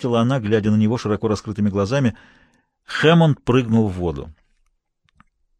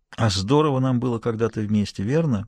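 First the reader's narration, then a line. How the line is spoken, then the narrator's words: Slightly sad question. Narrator (Russian): спросила Дэви чуть печально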